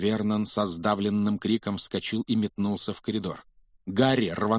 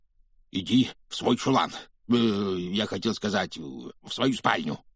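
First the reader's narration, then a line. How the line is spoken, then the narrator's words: Hoarse, rasping. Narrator (Russian): прохрипел он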